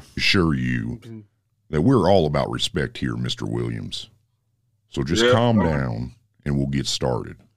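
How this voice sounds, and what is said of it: Disguised, altered voice. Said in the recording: “why the fuck is your voice sounding like that? ... my voice is disguised”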